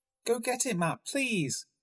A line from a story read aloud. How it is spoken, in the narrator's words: Gracie pleaded